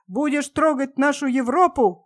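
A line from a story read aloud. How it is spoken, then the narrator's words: Dogs shouting. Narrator (Russian): кричали собаки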